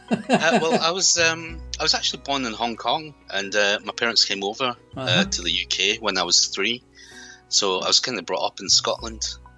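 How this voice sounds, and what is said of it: Scottish accent. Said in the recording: “from Scotland ... a Scottishman of Chinese descent ... Hence the accent ... I found it a bit difficult to lose the accent”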